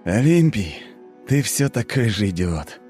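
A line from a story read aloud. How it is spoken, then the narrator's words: Snorting despite pain. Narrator (Russian): Не обращая внимания на терзающую меня боль, хмыкнул я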